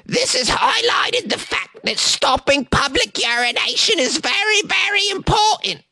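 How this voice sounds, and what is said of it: Deliberately terrible put-on accent. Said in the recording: “a terrible accent”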